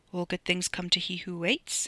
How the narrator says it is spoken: he muttered

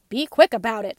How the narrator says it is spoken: snapped, who was now hungrier than ever

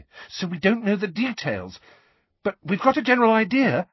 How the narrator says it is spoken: she added hastily

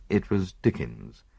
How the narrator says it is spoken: I murmured, unable to suppress a smile

